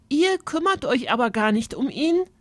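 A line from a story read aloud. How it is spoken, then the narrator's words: Called out. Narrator (German): rief Alexa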